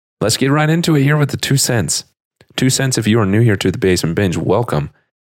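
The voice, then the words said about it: Congested voice from a cold. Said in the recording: “I have had a cold... why I sound so weird”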